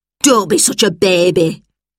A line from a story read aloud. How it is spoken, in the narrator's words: she snapped